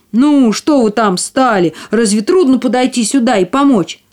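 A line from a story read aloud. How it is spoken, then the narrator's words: Angry shout. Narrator (Russian): Он сердито крикнул им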